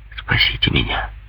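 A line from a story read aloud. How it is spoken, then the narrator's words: Pitiful whisper. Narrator (Russian): шепнул ей бедняга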